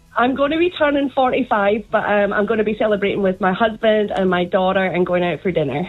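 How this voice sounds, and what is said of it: Scottish accent. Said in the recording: “I love the Scottish accent. You sound sexy.”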